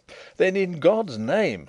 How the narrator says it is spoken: I cried

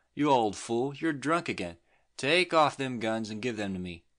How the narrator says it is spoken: she exclaimed scornfully

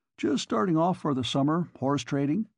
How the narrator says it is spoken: Bjornstam chuckled

